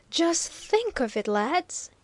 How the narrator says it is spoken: he cried, almost beside himself with enthusiasm

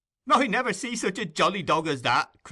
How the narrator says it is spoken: cried Master Bates

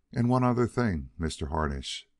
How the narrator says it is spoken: Guggenhammer said

